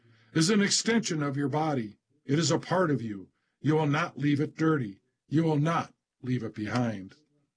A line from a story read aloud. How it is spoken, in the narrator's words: yells the drill sergeant